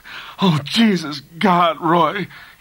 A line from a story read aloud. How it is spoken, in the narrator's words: he cried in a broken voice